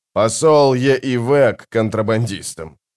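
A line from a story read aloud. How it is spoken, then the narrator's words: Chuckling baron. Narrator (Russian): хохотнул барон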